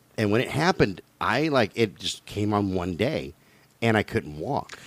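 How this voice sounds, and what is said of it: Usual voice. Nothing is said of it.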